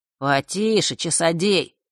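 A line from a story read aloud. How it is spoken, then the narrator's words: Snorting chuckle. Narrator (Russian): хмыкнул Данила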